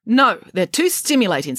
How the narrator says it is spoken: snapped the head nurse

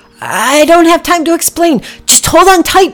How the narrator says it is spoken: Packy yelled

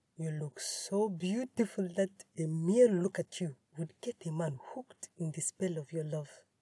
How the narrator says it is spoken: whispered

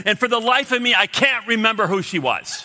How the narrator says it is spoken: he blurts out, and he says

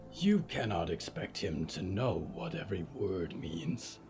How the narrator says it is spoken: Yuretsi growled

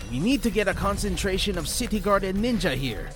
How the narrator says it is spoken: he shouted

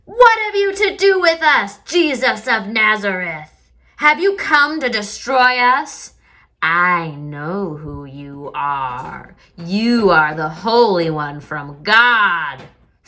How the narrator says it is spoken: a person with an evil spirit screamed

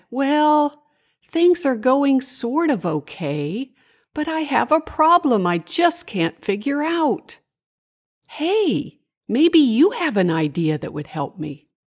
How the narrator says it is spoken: Larissa sighed and said

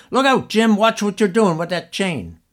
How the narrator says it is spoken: he shouted out

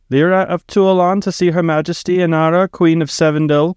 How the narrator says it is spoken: cried a guard through the thick doors

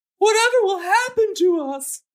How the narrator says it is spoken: woman cried

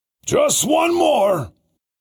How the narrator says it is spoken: the driver hollered

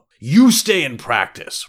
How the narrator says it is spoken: roared his father

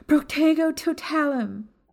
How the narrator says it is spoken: Maya rushed forward as she yelled

